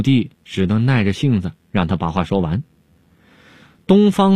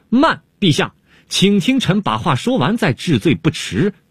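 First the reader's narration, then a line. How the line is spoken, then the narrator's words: Sudden shout. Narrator (Chinese): 东方朔忽然大叫了起来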